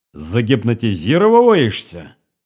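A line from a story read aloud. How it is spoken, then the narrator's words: Repeated, then loud laughter. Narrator (Russian): повторил Богатырев и громко захохотал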